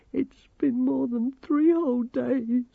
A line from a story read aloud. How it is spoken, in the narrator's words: sobbed Grimmer